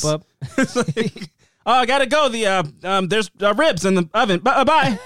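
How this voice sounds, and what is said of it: Put-on white guy voice. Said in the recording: “my white guy voice”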